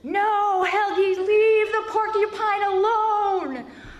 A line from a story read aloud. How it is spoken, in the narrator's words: I yelled into the night